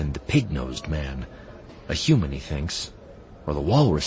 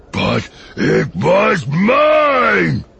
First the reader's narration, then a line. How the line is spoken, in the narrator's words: Mayo yells